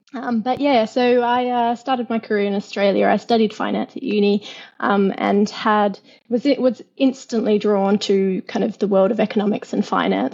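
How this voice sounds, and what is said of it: Noticeable Australian accent. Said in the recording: “People can probably hear that you're Australian ... you can hear my accent so clearly”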